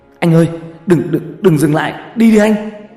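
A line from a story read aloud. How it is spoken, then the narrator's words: Hissing. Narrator (Vietnamese): Toàn rít lên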